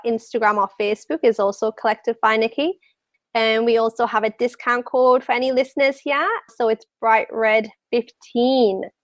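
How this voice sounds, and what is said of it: Strong accent, unusual vowel sounds. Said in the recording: “my accent. The way that I pronounce my A's and my E's, pretty much nobody knows what I'm saying.”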